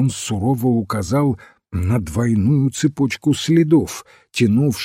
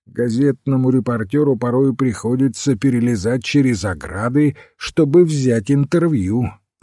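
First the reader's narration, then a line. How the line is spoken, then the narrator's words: Plain. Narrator (Russian): сказал он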